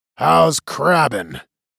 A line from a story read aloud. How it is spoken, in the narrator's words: He chuckled